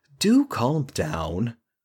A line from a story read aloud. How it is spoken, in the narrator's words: said, calmly